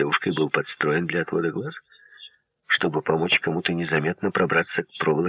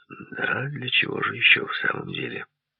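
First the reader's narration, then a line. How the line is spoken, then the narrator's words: Sighed. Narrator (Russian): вздохнул Хардинджер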